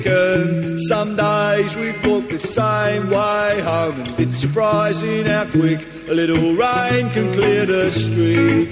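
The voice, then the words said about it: Singing in heavy Cockney accent. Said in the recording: “Does he always sing in that heavy of... Hackney of a Cockney accent”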